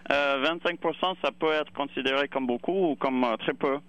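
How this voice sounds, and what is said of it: Non-native accent speaking French. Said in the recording (French): “mes excuses de mon accent français, mais j'ai appris à l'école”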